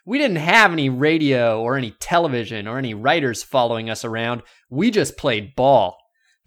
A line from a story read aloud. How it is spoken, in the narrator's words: shouted Musial in mock bitterness